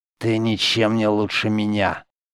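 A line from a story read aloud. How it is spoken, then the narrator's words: Hissed. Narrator (Russian): прошипел Гордон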